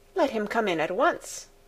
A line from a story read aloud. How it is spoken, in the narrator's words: replied Clara